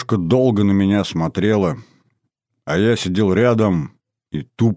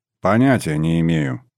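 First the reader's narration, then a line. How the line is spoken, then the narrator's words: Grumbling. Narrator (Russian): проворчал я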